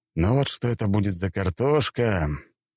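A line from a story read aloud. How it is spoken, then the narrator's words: Wry inner snort. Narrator (Russian): я про себя хмыкнул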